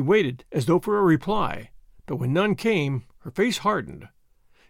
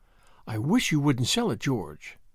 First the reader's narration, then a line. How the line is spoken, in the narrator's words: she said, in a low voice